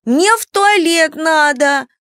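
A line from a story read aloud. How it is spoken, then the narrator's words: Wailing. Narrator (Russian): каждая вопила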